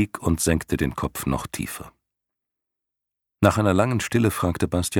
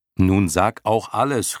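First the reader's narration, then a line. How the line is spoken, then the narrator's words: Calling out. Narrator (German): rief Bastian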